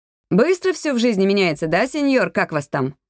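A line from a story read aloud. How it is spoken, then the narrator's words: Laughing speech. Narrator (Russian): рассмеялась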